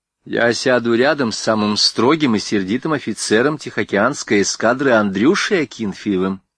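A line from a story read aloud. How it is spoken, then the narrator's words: Loud declaration. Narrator (Russian): громко заявила Рива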